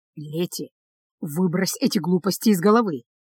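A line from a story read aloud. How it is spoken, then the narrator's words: Quiet, kept from overhearing. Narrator (Russian): тихо сказал он, так, чтобы бабушка не слышала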